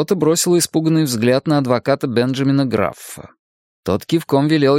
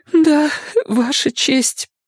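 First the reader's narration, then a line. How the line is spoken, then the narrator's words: Choked with sobs. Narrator (Russian): ответила она сдавленным от рыданий голосом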